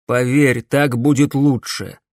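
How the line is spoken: Plain. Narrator (Russian): сказал ему Дмитрий

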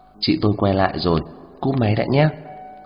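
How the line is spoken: Quick hushed phone speech. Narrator (Vietnamese): Kiều An Hảo nhỏ giọng nói rất nhanh vào trong điện thoại

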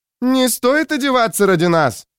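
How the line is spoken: Older woman shouting. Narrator (Russian): крикнула женщина постарше

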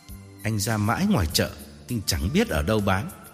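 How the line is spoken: Calm smiling reply. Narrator (Vietnamese): Tôi mỉm cười và thản nhiên đáp

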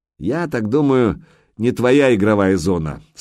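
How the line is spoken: Small troll booming from above. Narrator (Russian): сверху прогудел маленький тролль

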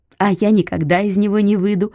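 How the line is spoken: Laughing. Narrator (Russian): засмеялась Полина

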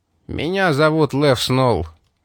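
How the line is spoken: Gloomy reply. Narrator (Russian): мрачно ответил гангстер

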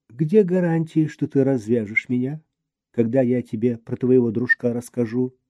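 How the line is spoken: Almost calm question. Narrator (Russian): спросил почти спокойно

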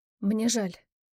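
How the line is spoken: Barely audible. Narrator (Russian): едва слышно произнесла девушка

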